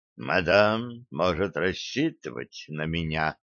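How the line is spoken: Flat, dispassionate voice. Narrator (Russian): сказал он бесстрастным голосом

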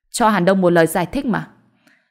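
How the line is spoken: Cold. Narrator (Vietnamese): Mã Bình Nguyên lạnh lùng nói

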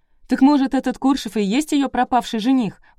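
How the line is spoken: Exclamation. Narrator (Russian): воскликнула Варька

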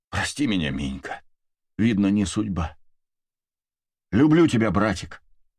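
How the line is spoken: Breathed out. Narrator (Russian): выдохнула Валентина

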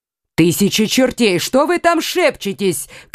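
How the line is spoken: Shouting. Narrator (Russian): крикнул Карл

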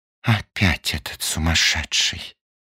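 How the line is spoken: Sighing woman. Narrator (Russian): вздохнула одна из пассажирок

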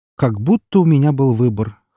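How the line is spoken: Muttered smirk. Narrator (Russian): хмыкнул он себе под нос

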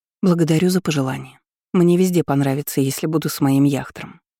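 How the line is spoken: Calm remark. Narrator (Russian): заметила спокойно

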